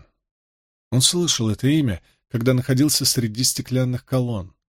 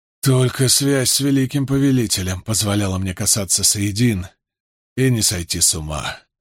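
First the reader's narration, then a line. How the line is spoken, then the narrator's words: Hoarse mutter. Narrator (Russian): хрипло пробормотал он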